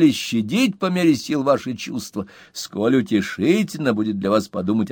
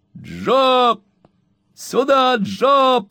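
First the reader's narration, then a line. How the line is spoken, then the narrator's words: Shouting. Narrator (Russian): кричал Сэм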